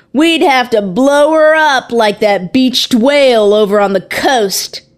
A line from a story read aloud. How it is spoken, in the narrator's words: From across the street, a man yelled